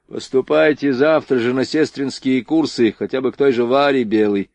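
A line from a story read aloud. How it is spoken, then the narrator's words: Deep bass voice. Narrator (Russian): пробасил Борейко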